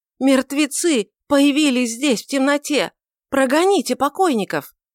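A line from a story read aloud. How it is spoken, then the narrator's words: Frantic cry. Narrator (Russian): Этот сумасшедший возглас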